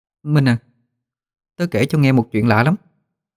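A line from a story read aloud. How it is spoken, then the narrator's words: Fearful whisper. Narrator (Vietnamese): sợ sệt thủ thỉ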